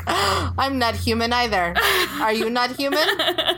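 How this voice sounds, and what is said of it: Robotic mechanical voice. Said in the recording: “Robot voice, robot voice.”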